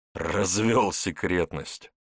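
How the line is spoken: KGB man snorting. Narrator (Russian): хмыкнул КГБшник

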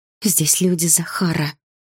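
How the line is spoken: Quiet but distinct. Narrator (Russian): тихо, но отчетливо сказала я

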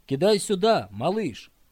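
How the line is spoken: Boy shouting. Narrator (Russian): вдруг один из мальчишек крикнул

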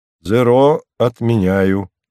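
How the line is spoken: Plain. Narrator (Russian): сказал Кронид

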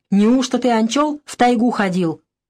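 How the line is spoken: Angry question. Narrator (Russian): спросил сердито

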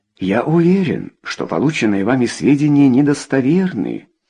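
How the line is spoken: Calm. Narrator (Russian): спокойно сказал епископ

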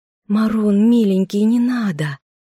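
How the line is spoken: Gentle plea. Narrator (Russian): попросила ласково

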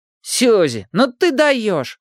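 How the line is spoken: Girlfriend's exclamation. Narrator (Russian): воскликнула подружка

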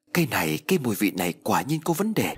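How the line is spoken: Startled frightened cry. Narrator (Vietnamese): Lê Minh giật mình sợ hãi, kinh sợ kêu lên

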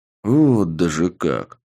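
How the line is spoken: Drawn-out, understanding. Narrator (Russian): с пониманием протянул я

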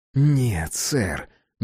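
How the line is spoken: Hissing. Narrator (Russian): прошипел помощник

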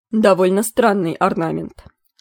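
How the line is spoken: Clipped, abrupt. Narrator (Russian): отрывисто сказал лорд Бассет Бландхаут

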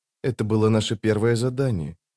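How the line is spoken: Quiet. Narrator (Russian): тихо проговорила рваная снасть

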